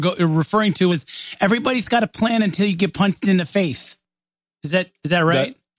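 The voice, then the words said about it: Imitates a famous boxer's voice. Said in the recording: “my terrible Mike Tyson impression”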